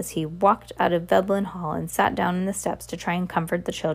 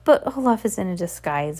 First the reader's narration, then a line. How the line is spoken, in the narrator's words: Violet said, miserably wiping her eyes